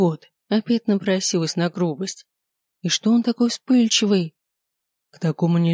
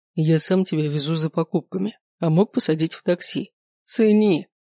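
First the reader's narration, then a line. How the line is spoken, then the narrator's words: Growling. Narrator (Russian): Прорычал он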